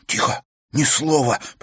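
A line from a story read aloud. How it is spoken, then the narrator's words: Hiss. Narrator (Russian): прошипел он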